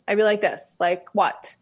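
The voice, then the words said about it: Combative Queens New York accent. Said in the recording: “that was my sort of like combative Queens accent”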